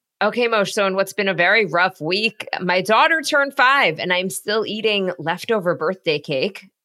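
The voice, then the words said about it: Rough, unwell-sounding voice. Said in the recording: “I don't know if you could hear it in my voice. It's not great. ... I think I am on the verge of getting sick.”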